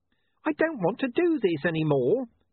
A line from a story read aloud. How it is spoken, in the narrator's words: Charlie wailed